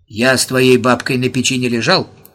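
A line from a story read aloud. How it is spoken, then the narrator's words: Angry old man hissing. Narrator (Russian): сердито пшикнул старик Мочонкин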